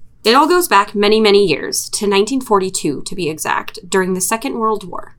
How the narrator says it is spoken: says

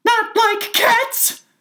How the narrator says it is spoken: cried the mouse in a shrill, passionate voice

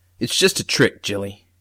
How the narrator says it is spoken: Dad had snorted and said

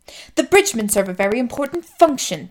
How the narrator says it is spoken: Sadeus snapped

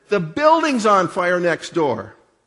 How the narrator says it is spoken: someone rushed in the back door and shouted

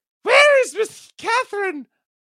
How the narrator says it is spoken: I cried hurriedly

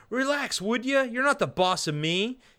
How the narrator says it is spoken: Up on the deck, Billy yells back down

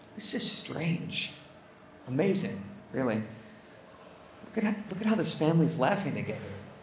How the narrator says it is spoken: Chuck turned to Lou and quietly said to him

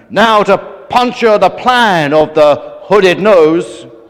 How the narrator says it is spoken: bellowed Superman

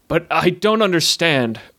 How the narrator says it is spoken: cried Garren, unnerved by the spectacle he beheld

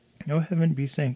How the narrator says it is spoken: sighed the duckling

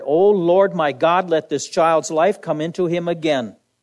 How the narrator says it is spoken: cried to the Lord

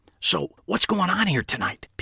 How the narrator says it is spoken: Pete whispered

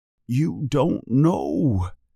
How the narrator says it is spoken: says Hagrid sadly

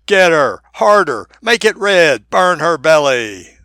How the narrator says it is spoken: shouting

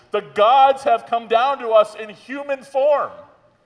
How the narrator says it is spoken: the crowd … they shouted, saying in the Laconian language

